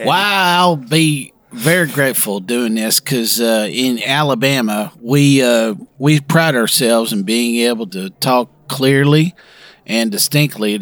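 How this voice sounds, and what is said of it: Put-on Alabama Southern accent. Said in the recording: “show off your Alabama accent”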